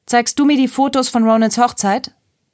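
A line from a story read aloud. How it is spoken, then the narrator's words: Calling from a distance. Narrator (German): rief Nessa von der Veranda aus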